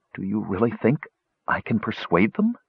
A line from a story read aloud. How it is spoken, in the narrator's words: he whispered